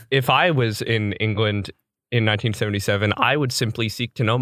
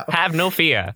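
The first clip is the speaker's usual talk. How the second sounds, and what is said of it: Put-on mid-Atlantic accent. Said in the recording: “Was it mid-Atlantic? Person like,”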